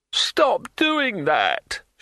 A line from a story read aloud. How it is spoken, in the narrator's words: shrieked Broadman from under the table